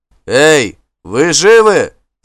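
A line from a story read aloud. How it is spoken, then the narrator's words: Low voice shouting from darkness. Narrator (Russian): закричал низковатый голос из морской темноты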